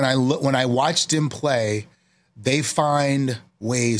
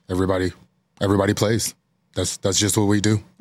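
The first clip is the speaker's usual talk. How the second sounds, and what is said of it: Imitates another person's voice. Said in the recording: “That's a good imitation. ... That's a really good imitation.”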